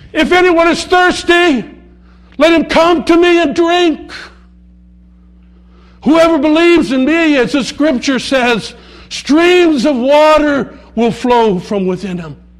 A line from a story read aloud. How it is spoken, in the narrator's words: in the midst of the reverent silence, someone shouts